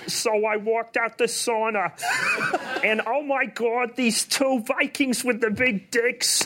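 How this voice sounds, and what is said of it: Ray Romano impression. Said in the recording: “that Ray Romano impersonation... but as Ray Romano”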